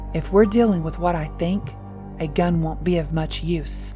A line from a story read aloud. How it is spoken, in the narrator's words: Papa replied gravely